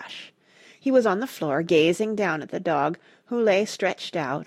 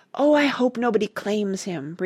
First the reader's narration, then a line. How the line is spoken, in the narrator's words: breathed Randy fervently